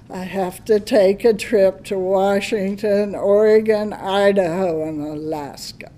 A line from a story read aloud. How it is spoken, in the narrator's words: I whined